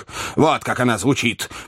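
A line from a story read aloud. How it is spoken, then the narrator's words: Pompous, weighty tone. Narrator (Russian): продолжал солидный мистер Хантер еще более солидным тоном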